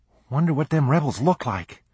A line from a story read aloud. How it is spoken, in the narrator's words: quavered a frightened boy in the ranks